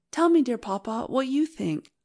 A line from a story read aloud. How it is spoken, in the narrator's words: I asked anxiously